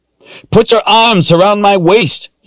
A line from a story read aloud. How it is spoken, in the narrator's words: yelled